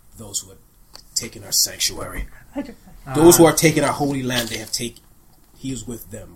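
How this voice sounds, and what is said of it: Character voice with thick accent. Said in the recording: “in a very thick accent”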